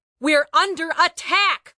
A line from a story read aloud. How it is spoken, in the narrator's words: Bori yelled